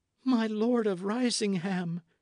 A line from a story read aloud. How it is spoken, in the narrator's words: she cried